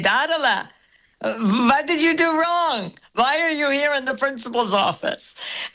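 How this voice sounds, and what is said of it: Imitates grandfather's accent. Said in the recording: “Very good Zadie accent”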